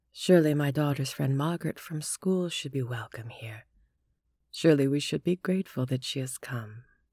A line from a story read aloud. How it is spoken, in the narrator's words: Rhodes softly